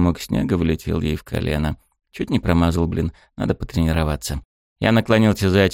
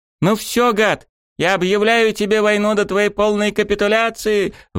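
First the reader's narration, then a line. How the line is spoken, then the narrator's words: Shouted. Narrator (Russian): выкрикнула она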